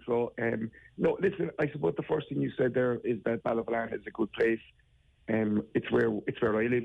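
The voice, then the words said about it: Voice sounds unwell, under the weather. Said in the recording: “Excuse my voice ... I'm under the weather a small bit.”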